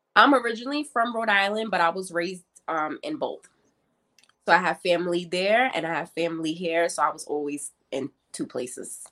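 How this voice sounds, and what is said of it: East Coast American accent. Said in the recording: “I can kind of hear that East Coast kind of an accent there”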